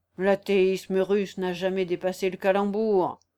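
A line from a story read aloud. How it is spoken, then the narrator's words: Grumbled. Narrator (French): grommela Chatoff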